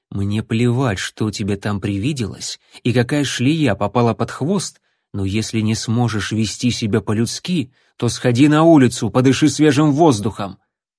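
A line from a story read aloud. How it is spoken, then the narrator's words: Quiet. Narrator (Russian): Джон негромко сказал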